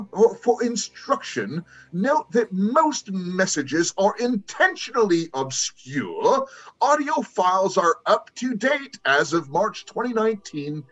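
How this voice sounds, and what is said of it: Attempted English accent, not held. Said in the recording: “I wish I could do an English accent ... I can't hold on to”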